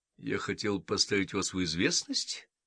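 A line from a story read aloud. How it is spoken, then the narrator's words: Calm declaration. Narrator (Russian): спокойным тоном заявил Мейсон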